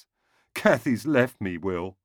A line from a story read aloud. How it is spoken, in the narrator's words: sobbed